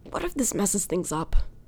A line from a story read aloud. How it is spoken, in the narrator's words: Eddie blurts out